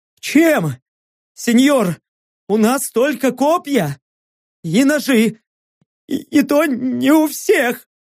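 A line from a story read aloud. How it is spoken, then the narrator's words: Sobbing, sniffling. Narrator (Russian): Я всхлипнул, шмыгнул носом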